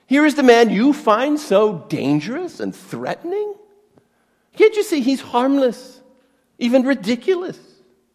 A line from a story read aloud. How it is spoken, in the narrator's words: Pilate is mocking Jesus